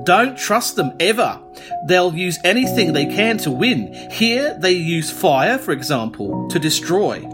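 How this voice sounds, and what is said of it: Old Australian farmer character voice. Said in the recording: “an aged Australian farmer... That's not a bad accent, actually, to be fair... It's very good. It's very good. It's like Madge Bishop on crack.”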